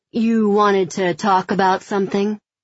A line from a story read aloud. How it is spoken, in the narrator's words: he asks, his voice as imposing as his frame